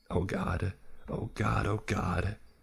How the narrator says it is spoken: he whimpered

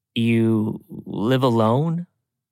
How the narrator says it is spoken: I hesitantly asked

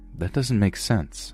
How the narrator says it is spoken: I said

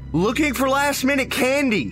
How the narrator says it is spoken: I shouted back

